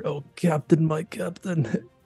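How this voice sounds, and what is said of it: Drowsy whisper. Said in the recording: “My drowsy murmurs. I whisper”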